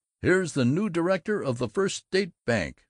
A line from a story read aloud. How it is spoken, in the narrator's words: Grover Butterbaugh, the eminent wholesaler of plumber supplies, chuckled